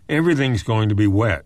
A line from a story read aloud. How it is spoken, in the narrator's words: he said